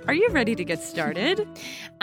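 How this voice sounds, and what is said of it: Peppy, cheerleader-like delivery. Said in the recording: “Did you hear how peppy that was? ... I sounded like a cheerleader.”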